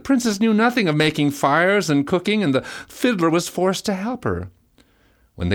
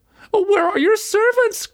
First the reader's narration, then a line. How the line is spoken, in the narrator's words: cried she